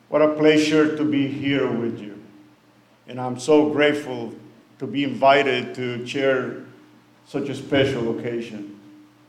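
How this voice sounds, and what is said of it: Noticeable accent. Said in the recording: “I have an accent, and I hope you can read through it.”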